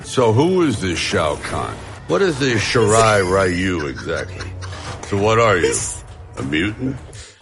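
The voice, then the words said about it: Slurred, drunk-sounding speech. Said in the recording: “He sounds like when Chris gets too drunk on the shows ... He's just like our drunk, slurring buddy”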